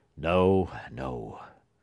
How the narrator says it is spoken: gruffly answered Judge Pyncheon with a harsh frown

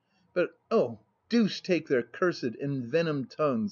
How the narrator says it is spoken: muttered, in the bitterness of my soul

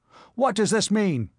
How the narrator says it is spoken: he shouted

